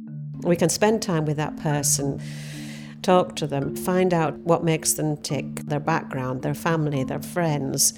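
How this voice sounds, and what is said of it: Northern English Cumbrian accent. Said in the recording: “my accent, I'm a northern bird. I'm from Cumbria.”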